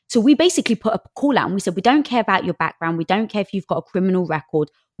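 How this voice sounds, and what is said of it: British accent. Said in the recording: “I'm 5'1" with a British accent”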